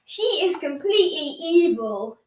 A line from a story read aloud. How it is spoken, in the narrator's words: Edward moaned